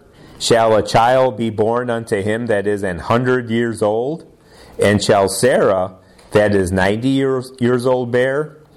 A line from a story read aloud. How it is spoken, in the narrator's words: Abraham laughed, and he said in his heart